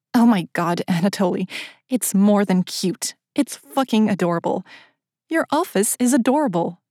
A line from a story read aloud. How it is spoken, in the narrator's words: hesitated a moment before blurting out